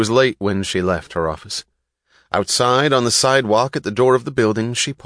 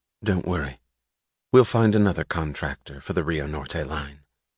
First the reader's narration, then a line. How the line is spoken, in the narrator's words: her voice even, she said